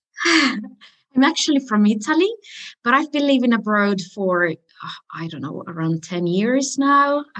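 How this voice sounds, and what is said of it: Unique mixed non-native English accent. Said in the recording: “they might not guess from your accent... you've got a very unique accent to go with it. We would never pick that... It's a mix”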